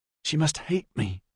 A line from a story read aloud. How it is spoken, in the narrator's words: he said in an aghast whisper